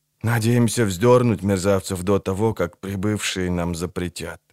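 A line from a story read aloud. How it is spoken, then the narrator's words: Quiet translation. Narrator (Russian): тихо перевел Фаис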